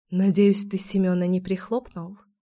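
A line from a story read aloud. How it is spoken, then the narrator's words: Whisper. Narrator (Russian): шепнула я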